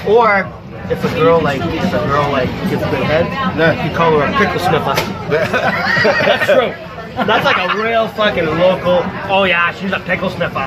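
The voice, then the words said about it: Boston accent. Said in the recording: “Are you from Boston? ... I am from Boston. ... Wait, I heard Boston accent.”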